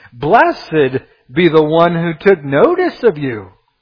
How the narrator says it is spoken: she exclaims

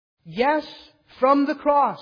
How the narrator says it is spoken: Jesus cried out

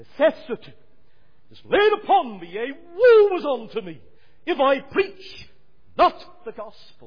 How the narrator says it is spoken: Paul cried

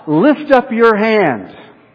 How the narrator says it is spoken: the people would shout

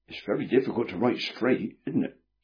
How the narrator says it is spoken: said Prudence

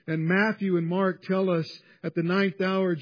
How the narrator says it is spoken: Jesus cried with a loud voice

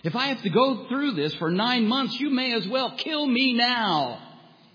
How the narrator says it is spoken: in her dismay, Rebecca cried out

